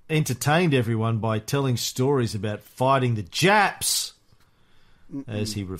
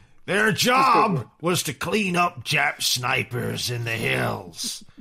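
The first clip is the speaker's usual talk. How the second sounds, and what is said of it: Imitates another person's voice. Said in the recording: “What's that accent? I'm going for Marshall here.”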